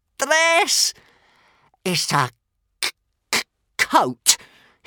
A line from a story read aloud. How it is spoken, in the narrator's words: hissed Toothless